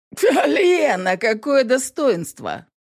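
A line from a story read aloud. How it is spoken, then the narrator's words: Mocking snort. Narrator (Russian): фыркнул насмешливо Фино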